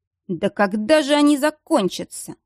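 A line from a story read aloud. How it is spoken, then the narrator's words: Through gritted teeth. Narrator (Russian): процедил сквозь сжатые зубы Дияр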